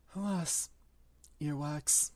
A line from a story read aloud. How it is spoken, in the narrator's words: he choked and said